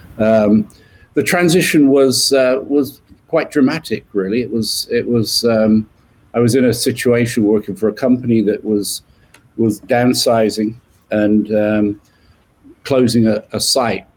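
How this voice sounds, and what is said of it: British accent. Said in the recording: “when you moved from UK to US... I've not been able to get rid of this accent”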